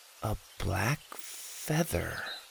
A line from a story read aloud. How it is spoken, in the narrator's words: said, quietly getting lost in her thoughts